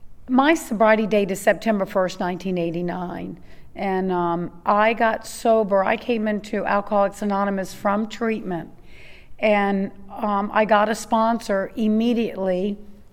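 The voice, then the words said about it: Hoarse, nearly lost voice. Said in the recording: “Excuse my voice. I've had the flu, so everything's gone except for the voice is just staying gone.”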